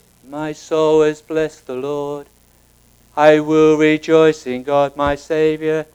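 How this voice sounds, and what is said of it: Flat monotone sung delivery. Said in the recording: “this song is sung, you know, like this... Like that, just very monotone.”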